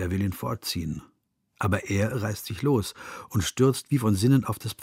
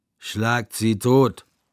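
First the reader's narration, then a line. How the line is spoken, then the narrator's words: Shouting. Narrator (German): schreit Mikolka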